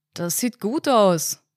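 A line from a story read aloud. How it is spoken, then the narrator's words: Called, head among pipes. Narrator (German): rief der Mann, der im Blaumann auf der Küchenzeile kniete, den Kopf zwischen den Rohren der Gastherme verborgen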